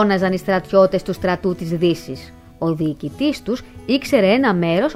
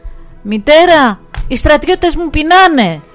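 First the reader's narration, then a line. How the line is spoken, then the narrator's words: Small boy calling from wall. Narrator (Greek): φώναξε ο μικρός γιος πάνω από τη δυτική πλευρά του τείχου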